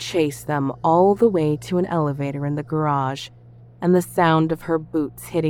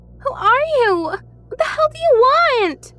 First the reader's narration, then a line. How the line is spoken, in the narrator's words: She turned and yelled